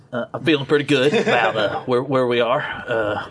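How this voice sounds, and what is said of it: Put-on Arkansas accent. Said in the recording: “I'm trying to do my Arkansas accent.”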